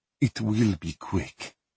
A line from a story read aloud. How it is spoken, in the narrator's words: her father said quietly